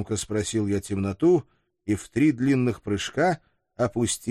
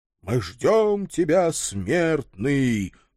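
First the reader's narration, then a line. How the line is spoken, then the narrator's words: Booming chorus in unison. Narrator (Russian): прогудел согласный хор голосов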